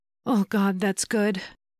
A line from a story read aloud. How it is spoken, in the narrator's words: she panted